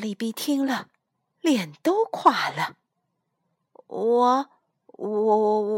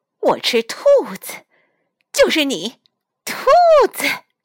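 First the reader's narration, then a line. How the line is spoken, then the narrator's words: Loud. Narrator (Chinese): 他大声地说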